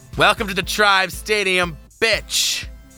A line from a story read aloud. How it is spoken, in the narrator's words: the man screamed